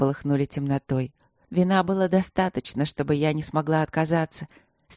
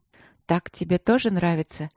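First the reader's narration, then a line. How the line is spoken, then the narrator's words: Soft half-voiced question. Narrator (Russian): спросила в полголоса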